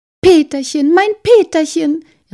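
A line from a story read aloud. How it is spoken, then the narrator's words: Little star calling. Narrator (German): rief das eine Sternchen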